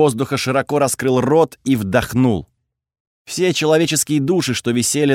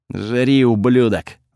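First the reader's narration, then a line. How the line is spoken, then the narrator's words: Angry. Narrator (Russian): зло сказал Готфред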